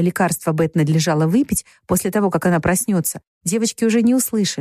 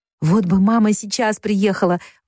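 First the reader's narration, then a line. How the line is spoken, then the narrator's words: Exclaimed. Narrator (Russian): воскликнула Джо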